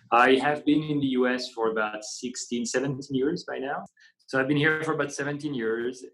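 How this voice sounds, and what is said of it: French accent in English. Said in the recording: “accent you might detect right now ... is actually not a Southern Illinois accent ... I'm actually French ... I can't pass”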